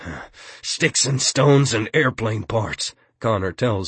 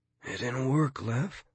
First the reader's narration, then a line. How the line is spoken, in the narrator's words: he says weakly